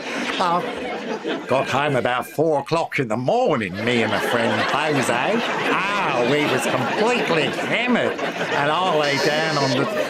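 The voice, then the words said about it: Put-on Australian accent. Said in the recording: “my authentic Australian accent”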